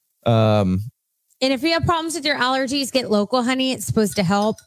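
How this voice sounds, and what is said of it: Hoarse voice. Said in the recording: “I'm a little hoarse today ... My voice has changed.”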